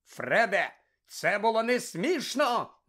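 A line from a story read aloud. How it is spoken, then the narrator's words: Shout. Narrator (Ukrainian): закричав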